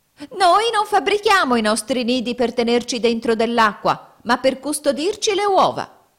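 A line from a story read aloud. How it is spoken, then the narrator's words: Shrill shriek. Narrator (Italian): una signora Fringuello, la quale, sentendo questo, strillò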